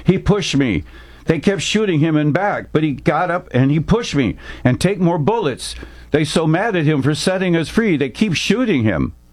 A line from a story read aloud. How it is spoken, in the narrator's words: the last one, an Asian nurse who spoke English, telling the colonel through her sobs